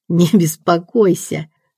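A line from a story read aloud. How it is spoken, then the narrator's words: Giggling reply. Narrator (Russian): ответила Шанди по своей привычке, хихикнув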